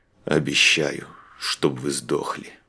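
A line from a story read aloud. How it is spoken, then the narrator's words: Mutter. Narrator (Russian): Буркнул он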